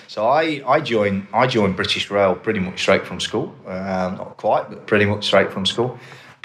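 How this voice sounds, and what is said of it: British English accent. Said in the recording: “back in the UK, and I think most people know from my accent where I'm from”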